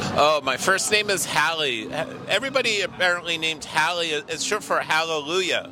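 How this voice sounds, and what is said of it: Usual voice. Nothing is said of it.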